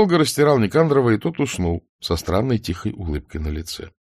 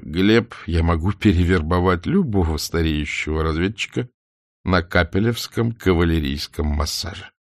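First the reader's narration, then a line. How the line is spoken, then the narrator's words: Laughing speech. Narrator (Russian): смеясь, сказал Бокию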